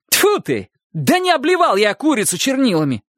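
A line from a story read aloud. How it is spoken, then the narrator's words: Shouting. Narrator (Russian): закричал Чик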